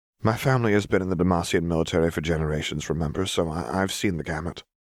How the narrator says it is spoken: Lux said gently

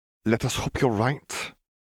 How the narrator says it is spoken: Gellert sighed

